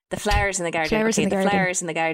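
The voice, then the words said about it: Attempted Irish accent. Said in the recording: “we could do an Irish accent”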